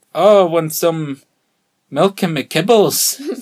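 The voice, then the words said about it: Put-on Scottish accent. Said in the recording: “one of your accents ... a Scottish accent ... they are Scottish”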